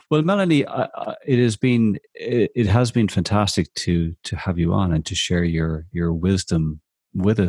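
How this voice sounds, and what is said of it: Irish accent. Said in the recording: “I love listening to Irish people speak. I love the accent”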